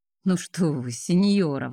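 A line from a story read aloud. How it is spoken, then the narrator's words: Exclaiming. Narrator (Russian): воскликнул Араторн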